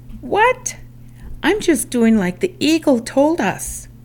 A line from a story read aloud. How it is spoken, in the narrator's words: Miffed, Hummingbird yelped